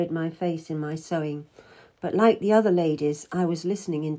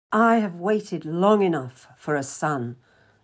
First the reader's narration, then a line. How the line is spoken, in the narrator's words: the King snapped